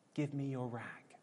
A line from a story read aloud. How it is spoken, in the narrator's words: said, ever so gently